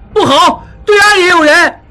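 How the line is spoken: Shouting. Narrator (Chinese): 小栓叫道

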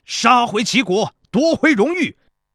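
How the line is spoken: Soldiers shouting together. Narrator (Chinese): 在场的士兵们纷纷高声喊道

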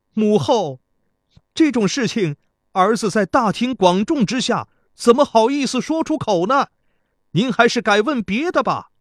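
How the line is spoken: Shouting. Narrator (Chinese): 贾公子对城下喊道

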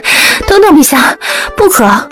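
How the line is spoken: Breathless. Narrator (Chinese): 他略有些喘

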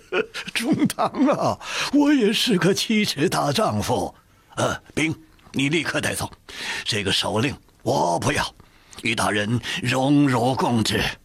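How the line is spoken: Sudden loud laugh. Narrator (Chinese): 科尔吉善突然大笑说

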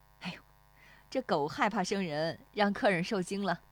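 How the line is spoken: Woman, smiling. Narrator (Chinese): 那妇女又对石丽华笑

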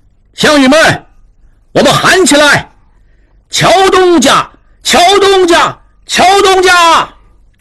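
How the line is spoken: Crowd chanting loudly. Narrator (Chinese): 众人随他一声声高喊

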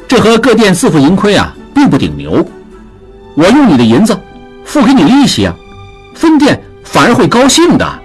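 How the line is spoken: Laughing. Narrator (Chinese): 马寻笑道

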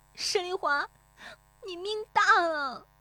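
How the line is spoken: Tearful cry. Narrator (Chinese): 乔红梅悄然变色，带着哭腔喊

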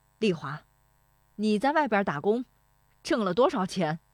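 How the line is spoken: Loud. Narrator (Chinese): 石德昌说这话的嗓门很响

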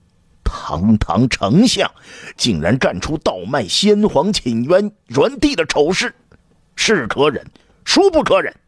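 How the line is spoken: Angry roar. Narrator (Chinese): 刘彻对着大臣们怒吼

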